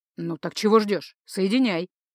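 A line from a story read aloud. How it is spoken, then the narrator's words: Displeased mutter. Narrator (Russian): Зеркало что-то недовольное буркнуло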